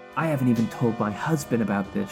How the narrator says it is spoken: she whispered

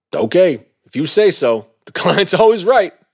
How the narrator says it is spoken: Melvin said, laughing sarcastically

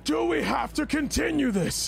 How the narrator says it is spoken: He's just going to scream out

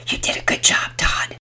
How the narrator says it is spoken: Penelope whispered

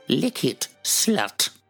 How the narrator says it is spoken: Dipsy growled

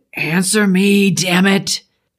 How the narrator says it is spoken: The low, growling hiss surrounded us in a chorus

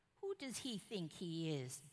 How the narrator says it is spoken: David asked

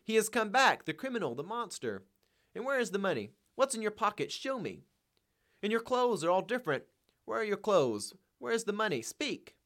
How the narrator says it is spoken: She cried out in a frenzy

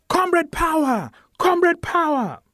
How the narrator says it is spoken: They shout

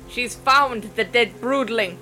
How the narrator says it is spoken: Her shout was barely audible in the tumult

